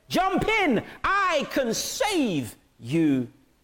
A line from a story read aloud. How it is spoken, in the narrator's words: man shouted to the roof and said